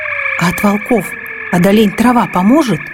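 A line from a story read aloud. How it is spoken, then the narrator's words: Child's loud whisper. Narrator (Russian): громким шепотом спросил малец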